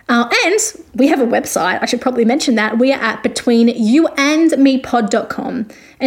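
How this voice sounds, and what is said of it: Speaks with a noticeable accent. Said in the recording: “if you can't understand my accent completely”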